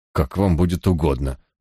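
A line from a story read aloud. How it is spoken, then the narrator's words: Dejected, crestfallen voice. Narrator (Russian): упавшим голосом произнес Марчмаунт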